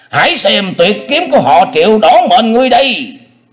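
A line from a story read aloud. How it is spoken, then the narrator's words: Thunderous scream. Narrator (Vietnamese): vị tà thần ấy thét lên như sấm nổ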